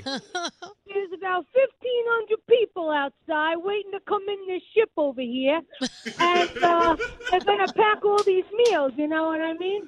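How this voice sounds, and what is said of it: Strong New York accent. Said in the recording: “You think ... has a New York accent? Wait till you hear ... with your ... accent ... you want it in my accent”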